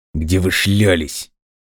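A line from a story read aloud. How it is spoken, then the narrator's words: Furious, through gritted teeth. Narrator (Russian): процедил сквозь зубы, в ярости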